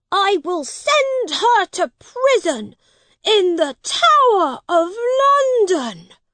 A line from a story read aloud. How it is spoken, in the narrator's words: he shouted